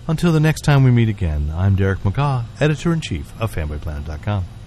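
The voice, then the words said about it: Smooth radio announcer voice. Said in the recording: “doing the smooth jazz voice? ... smooth radio announcer voice”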